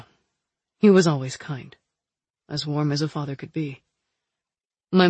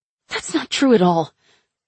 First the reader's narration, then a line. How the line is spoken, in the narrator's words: I said hotly